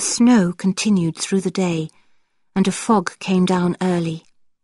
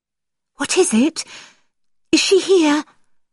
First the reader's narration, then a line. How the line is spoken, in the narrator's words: I asked anxiously